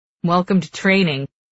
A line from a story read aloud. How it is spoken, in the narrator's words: he chuckles